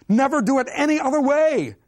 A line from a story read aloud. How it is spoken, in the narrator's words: shouted Puccini from the back of the auditorium